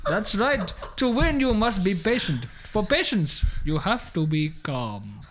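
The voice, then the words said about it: Put-on Indian accent. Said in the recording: “your accent's strangely confusing ... No, it is Indian all the way.”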